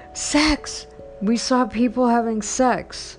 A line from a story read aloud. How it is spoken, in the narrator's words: Terrified, sobbed